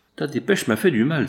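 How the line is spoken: Exclamation. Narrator (French): s'écria M

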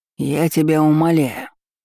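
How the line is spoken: Growled. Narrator (Russian): рычал воин

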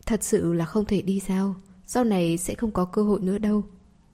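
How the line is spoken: Soft, intimate. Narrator (Vietnamese): Minh Trúc thân mật, nhỏ giọng nói

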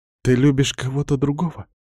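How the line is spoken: Quiet question. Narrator (Russian): тихо спрашивает она

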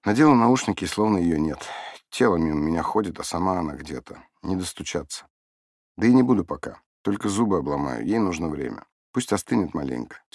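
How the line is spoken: Woman sighing heavily. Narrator (Russian): тяжело вздохнув, проговорила женщина

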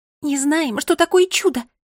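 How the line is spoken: Excited squeak. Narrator (Russian): взволнованно пискнула Мира

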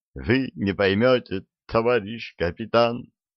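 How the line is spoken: Sobbing. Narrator (Russian): всхлипывал Гена

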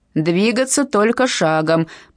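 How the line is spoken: Warden's roared command. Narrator (Russian): проревел один из надзирателей

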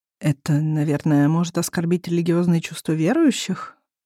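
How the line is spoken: Timid suggestion. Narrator (Russian): робко предполагает Дэн

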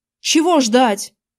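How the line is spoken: Barked shout. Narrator (Russian): рявкнул

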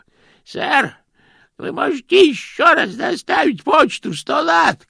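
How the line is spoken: Shouting. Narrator (Russian): крикнул он

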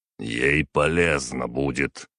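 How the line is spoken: Cold reply. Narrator (Russian): холодно ответил император

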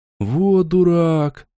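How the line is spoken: Drawl. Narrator (Russian): протянул тот, кого назвали Доном

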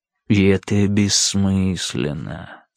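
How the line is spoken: Almost tender. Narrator (Russian): сказал Сирки почти ласково

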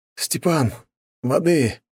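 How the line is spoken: Hoarse wheeze. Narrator (Russian): прохрипел я

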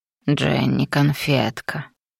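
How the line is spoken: Besotted demon muttering. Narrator (Russian): пробормотал демон чувствуя как пьянеет от одной ее близости

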